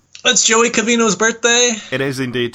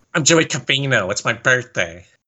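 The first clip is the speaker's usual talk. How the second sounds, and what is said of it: Bad imitation of another person's voice. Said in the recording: “That was the worst impression you have ever done of anyone ever.”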